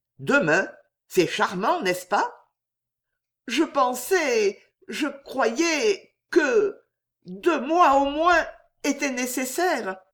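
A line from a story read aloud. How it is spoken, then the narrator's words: Young girl stammering. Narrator (French): balbutiait la jeune fille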